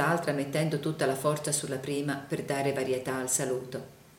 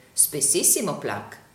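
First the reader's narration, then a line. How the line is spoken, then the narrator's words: Plain. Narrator (Italian): rispose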